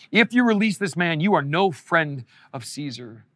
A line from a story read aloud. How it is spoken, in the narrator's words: the Jewish leaders shouted